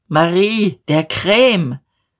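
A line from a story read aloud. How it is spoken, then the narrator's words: Called out. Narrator (German): rief aus der Tür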